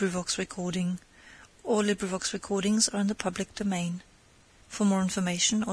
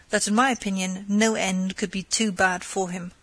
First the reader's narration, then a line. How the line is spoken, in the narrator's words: she replied scornfully